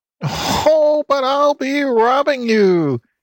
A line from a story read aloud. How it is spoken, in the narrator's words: cackled Mrs